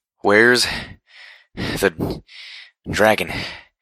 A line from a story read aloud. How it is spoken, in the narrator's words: I panted